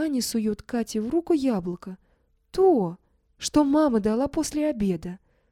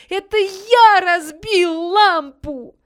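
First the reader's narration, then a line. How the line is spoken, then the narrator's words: Desperate shout. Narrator (Russian): отчаянно закричал Ваня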